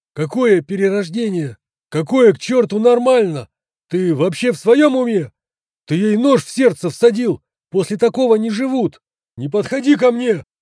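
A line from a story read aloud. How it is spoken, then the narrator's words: Yelling again. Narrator (Russian): Снова заорал медбрат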